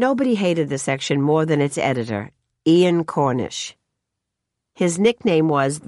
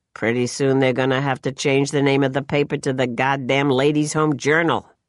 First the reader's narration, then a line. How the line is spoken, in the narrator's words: Mort used to mutter